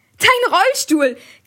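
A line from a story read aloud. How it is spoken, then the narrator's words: Shrieking. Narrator (German): kreischte Anna oder Lena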